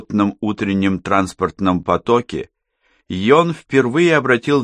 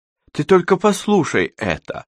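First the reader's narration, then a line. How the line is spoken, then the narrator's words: Exclamation. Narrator (Russian): воскликнула она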